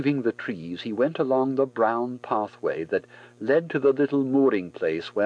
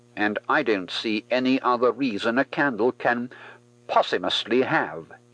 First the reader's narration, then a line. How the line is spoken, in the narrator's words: he decided firmly